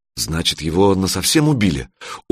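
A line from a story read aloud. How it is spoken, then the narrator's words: Dejected mutter. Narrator (Russian): упавшим голосом пробормотал Санёк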